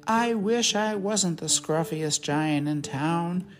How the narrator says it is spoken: he said sadly

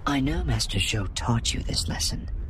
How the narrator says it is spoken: she added softly

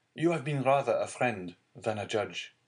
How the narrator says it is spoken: cried Dante

